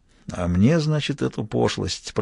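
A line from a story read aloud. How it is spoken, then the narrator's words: Grumbling. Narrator (Russian): проворчал Лаврик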